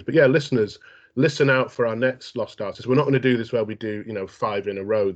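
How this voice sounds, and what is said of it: Congested voice, sounds like cold. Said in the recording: “Does Sherlock Holmes sound like he's got a cold? ... Every time you've got a cold”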